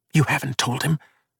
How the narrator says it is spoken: she asked under her breath

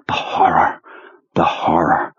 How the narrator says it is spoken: in just the right Marlon Brando whisper

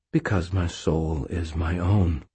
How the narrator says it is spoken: I said quietly

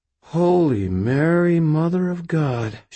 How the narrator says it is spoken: she breathed, her eyes widening

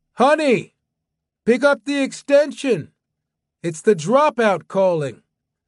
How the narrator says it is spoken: Away from the phone, he shouted

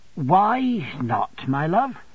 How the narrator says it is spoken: I gently asked

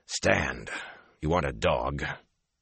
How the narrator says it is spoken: he said roughly

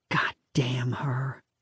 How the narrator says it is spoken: Lisa whispered

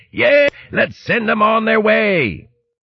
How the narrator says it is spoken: Bucko Big Bones yelled

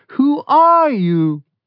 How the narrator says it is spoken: The Zed in the Airstream trailer, watching with wide, shocked eyes, shouted

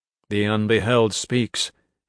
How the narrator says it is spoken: he said, his voice as flat as the gods

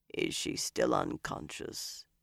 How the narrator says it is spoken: It was a rasp, a file on bone

